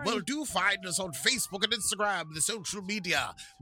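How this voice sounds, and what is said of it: British army captain accent. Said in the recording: “You do a rather good accent of some sort of British army captain.”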